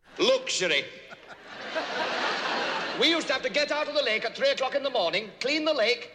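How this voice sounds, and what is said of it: Old Yorkshireman comedy voice. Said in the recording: “best impression for his take on Monty Python's Old Yorkshire Man sketch”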